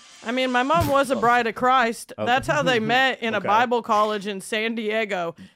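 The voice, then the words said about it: Rural Indiana American accent. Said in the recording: “Accent is throwing me off like crazy... I'm kind from Cornfields, Indiana... I sound like a MAGA”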